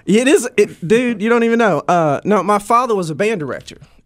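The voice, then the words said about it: Mixed Southern US drawl. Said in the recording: “that's not really a Louisiana accent ... Part of my draw comes from Tennessee. Part of it comes from Alabama. Part of it comes from Kentucky.”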